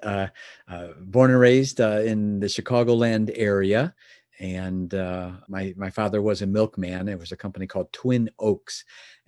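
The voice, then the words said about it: Distinctive Chicago accent. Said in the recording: “I hear a distinctive Chicago accent from you”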